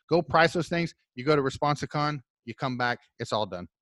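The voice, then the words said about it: Loud, excited shouting. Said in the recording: “Stop screaming. You get a little excited about response.”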